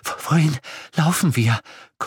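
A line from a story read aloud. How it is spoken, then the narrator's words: Panting. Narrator (German): keuchte Irene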